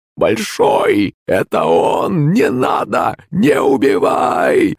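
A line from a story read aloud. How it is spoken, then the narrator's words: Old woman, hoarse wheeze. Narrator (Russian): Захрипела бабка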